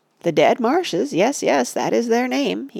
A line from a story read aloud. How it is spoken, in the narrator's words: he cackled